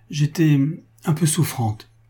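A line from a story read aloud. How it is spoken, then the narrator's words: Trembling voice. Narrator (French): reprit-elle d'une voix toute tremblante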